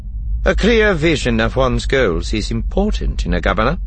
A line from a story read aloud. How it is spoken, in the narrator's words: Tarkin said dryly